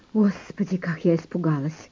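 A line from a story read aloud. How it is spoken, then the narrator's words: Muttering. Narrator (Russian): пробормотала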